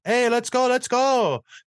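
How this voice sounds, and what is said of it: Imitating Marc-Andre Fleury's accent. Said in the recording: “Marc-Andre Fleury ... Coming in with that sweet accent.”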